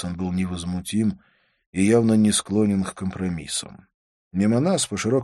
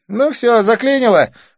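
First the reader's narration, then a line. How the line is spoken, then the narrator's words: Snorting. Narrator (Russian): фыркнула Дива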